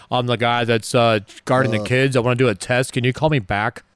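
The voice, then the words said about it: Put-on deep voice. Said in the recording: “I'm going to get my deep voice on.”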